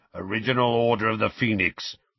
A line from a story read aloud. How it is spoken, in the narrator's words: growled Moody